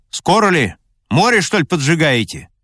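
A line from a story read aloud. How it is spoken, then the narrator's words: Impatient loud shout. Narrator (Russian): командир от нетерпения громко закричал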